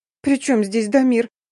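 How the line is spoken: Sobbing snap. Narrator (Russian): всхлипнув, огрызнулась

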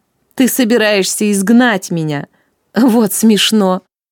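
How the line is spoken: Mocking. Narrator (Russian): насмешливо произнесла

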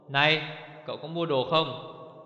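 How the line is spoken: Loud, rude question. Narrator (Vietnamese): Anh bán đồ ở quầy lớn tiếng hỏi thô lỗ

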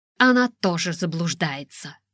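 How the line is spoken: Grumbling. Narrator (Russian): проворчала Ева

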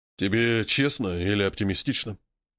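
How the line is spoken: Sigh. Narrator (Russian): Вздохнул Баобаб

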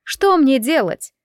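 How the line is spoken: Shouting. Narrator (Russian): Казалось, что Хвоен кричала на кого-то

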